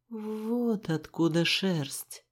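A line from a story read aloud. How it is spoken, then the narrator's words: Muttered. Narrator (Russian): пробормотал Рыжик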